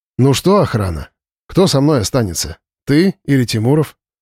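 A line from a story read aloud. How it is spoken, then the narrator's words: Wry grunt. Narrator (Russian): Слава хмыкнул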